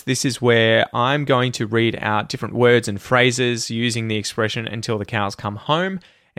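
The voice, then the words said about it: Australian English accent. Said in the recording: “work on your Australian English pronunciation ... use the words and phrases as I say them”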